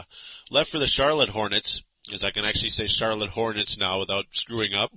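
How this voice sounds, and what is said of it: Rough voice from a cold. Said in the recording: “As I try not to cough here ... my voice is a little messed up because I've been struggling through a summer cold”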